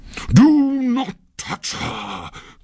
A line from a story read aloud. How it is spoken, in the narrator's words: cried Pluto in a terrible voice